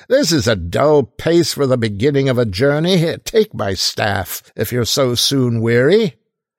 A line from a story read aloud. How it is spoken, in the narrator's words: cried his fellow traveller